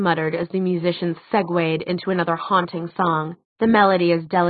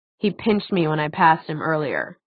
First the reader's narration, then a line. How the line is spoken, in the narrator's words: Alec said stiffly